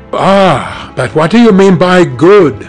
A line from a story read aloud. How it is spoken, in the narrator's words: cried Basil Hallward